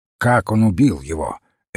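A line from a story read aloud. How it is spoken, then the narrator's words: Sharp question. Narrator (Russian): резко спросил Крейг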